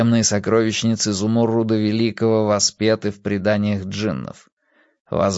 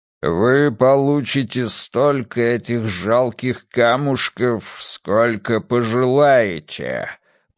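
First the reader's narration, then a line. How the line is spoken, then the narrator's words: Booming giant's voice. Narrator (Russian): прогремел великаньим голосом Зумуррут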